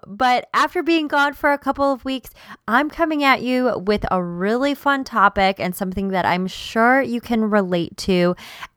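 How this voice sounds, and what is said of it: Slightly off, sick-sounding voice. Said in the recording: “my voice sounds a little bit funny throughout this episode, I'm getting over being sick ... I don't sound like myself 100%”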